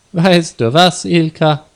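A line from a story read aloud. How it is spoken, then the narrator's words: Louder laughing speech. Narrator (German): Er lachte jetzt lauter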